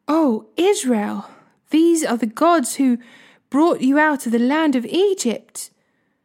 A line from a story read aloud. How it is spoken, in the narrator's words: they exclaimed